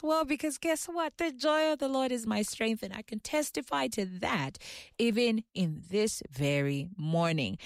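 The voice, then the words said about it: Excited, energetic voice. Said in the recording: “I'm sure you can hear the excitement in my voice.”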